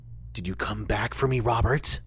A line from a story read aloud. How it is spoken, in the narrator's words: whispers a voice